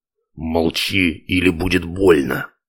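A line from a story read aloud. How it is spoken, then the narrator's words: Hoarse male whisper. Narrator (Russian): хриплый мужской шепот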